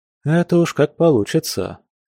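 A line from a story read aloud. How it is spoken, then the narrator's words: Heavy sigh. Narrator (Russian): тяжело вздохнул Алексей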